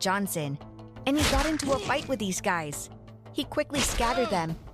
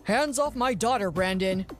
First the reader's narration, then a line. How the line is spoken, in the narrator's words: my father said sternly